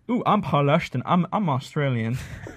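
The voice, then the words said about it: Imitates another person's voice, Australian. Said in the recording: “Clearly a terrible impersonation ... that was spot on. Spot on.”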